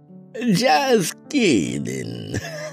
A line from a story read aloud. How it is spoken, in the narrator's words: Madam Ona said with a hearty laugh